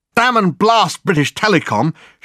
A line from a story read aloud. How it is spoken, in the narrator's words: shouted Dirk, the words coming easily from force of habit